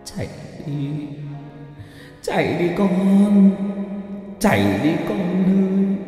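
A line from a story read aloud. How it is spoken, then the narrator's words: Anguished wailing, sobbing. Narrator (Vietnamese): Cụ Mai gào thét lên trong đau đớn, khóc lóc thảm thiết, nhưng vẫn cố nói với con dâu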